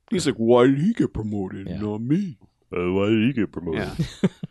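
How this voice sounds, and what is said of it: Cartoon character voice, poorly done. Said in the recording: “That's not a very good Bullwinkle impression.”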